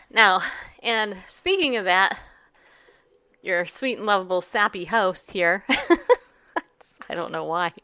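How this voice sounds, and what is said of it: Choked-up emotional voice. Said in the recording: “got me all choked up”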